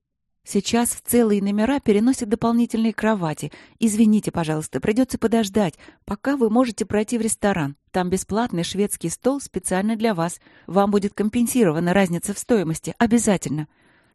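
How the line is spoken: Rapid repeated chatter. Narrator (Russian): тараторила Светлана раз за разом

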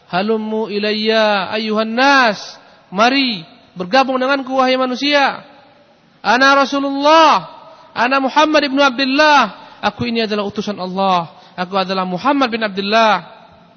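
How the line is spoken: Shouting to the people. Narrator (Indonesian): dia berteriak kepada manusia

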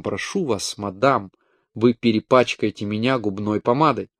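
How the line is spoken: Ironic reproachful mutter. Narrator (Russian): пробормотав с ироническим упреком

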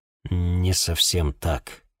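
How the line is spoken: Listless nervous mumble. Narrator (Russian): вяло пробормотал, ощутив дрожь в коленях

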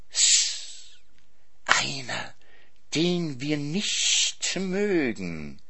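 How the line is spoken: Hissing snake. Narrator (German): zischte die Schlange

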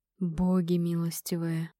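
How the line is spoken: Whispered. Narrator (Russian): прошептал дробитель костей

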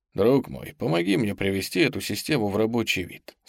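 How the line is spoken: Said in an undertone. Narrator (Russian): сказал он вполголоса

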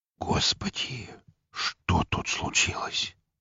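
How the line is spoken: Whispered. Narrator (Russian): прошептал Филатов

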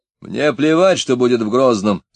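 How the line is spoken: Shouted. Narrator (Russian): закричал Иван

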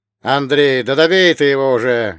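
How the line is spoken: Bellowing over a crowd. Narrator (Russian): рявкнул Хованский, силясь перекричать толпу

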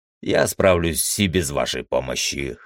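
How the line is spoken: Snorting. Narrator (Russian): хмыкнул я

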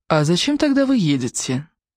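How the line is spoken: Pleasant voice, snide undertone. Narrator (Russian): Приятным голосом, но с неприятной улыбкой спросила Майра

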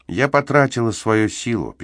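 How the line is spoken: Sad reply. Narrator (Russian): печально ответила она

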